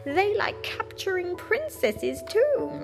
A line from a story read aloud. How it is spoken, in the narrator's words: he laughed a horrible laugh and said to Princess Eliza